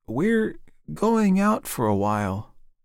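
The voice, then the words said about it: Wavering, unsteady voice. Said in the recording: “in a wavering voice”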